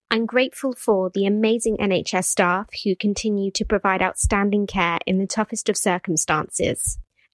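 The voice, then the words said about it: Posh British accent. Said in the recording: “somebody with a posh British accent ... it is a posh British accent”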